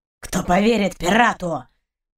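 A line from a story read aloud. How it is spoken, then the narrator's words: Growling dog. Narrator (Russian): прорычал пес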